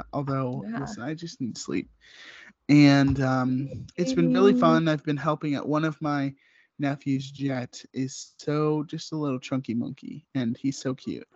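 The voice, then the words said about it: Voice sounds like a cold. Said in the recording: “I'm getting kind of a little cold in my sultry voice. My cold voice is coming in.”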